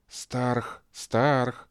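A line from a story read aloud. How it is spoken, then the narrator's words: Whispered. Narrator (Russian): шептала Татьяна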